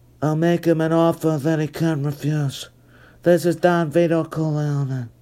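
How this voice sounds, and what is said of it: Marlon Brando as Don Corleone impression. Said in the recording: “There, I tried, okay? Where's Marlon Brando or his spirit when you need him for that one? ... You'll get some impersonations on here.”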